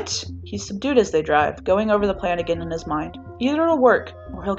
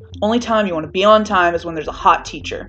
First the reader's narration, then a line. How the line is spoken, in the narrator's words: Bakugo grumbles